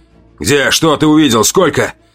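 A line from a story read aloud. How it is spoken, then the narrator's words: Abrupt, clipped question. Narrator (Russian): Отрывисто, без предисловий, спросил Марк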